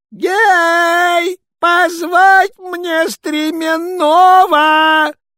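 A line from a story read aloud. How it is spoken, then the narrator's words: Shout. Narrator (Russian): Царь посыльным закричал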